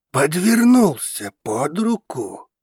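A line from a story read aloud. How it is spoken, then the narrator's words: Man hissing. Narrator (Russian): зашипел мужчина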